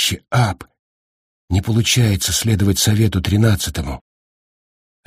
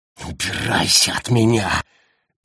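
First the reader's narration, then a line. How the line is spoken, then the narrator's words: Hissed. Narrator (Russian): прошипел Гаррити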